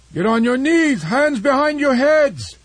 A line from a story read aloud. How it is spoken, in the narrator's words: the Iban pirate chief shouted